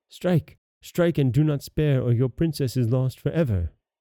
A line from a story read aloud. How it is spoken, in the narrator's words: a voice in his ear said